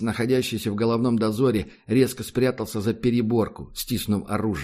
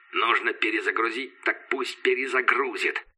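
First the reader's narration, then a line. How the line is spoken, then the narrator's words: Through gritted teeth. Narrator (Russian): процедил сквозь зубы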